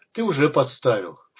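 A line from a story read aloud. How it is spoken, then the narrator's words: Snorting. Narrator (Russian): фыркнул Исай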